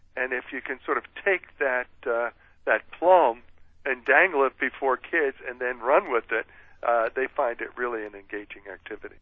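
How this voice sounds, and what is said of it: Philadelphia accent. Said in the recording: “His accent, in case you're wondering, is from Philadelphia, Pennsylvania.”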